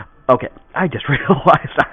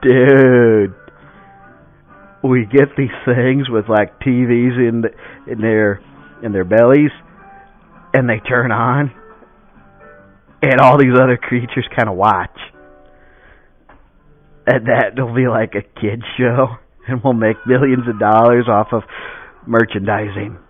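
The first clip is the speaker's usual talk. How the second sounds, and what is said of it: Drunk stoner voice, southern accent. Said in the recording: “I made my drunk accent have a southern accent as well ... a southern stone dude ... usually more of a surfer dude kind of thing”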